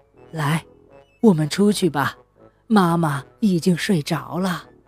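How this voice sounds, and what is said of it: Quiet, whispered speech. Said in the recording (Chinese): “小声的对露露说”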